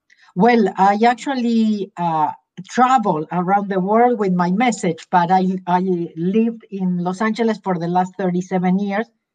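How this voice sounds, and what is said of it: Argentinian Spanish accent in English. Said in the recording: “I am originally from Argentina. That's where my accent is from.”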